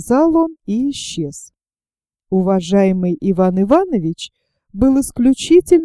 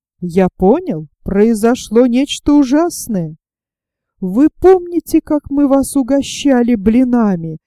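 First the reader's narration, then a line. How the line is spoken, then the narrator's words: Tragic shouting. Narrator (Russian): закричал он трагическим голосом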